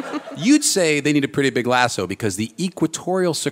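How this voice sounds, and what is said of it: Usual voice. Nothing is said of it.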